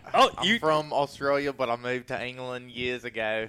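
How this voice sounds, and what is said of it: Put-on British-Australian accent. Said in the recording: “This is your British Crocodile Dundee accent.”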